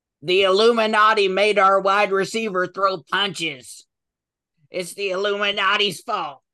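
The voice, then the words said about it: Imitates another person's voice. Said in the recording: “That's my impression”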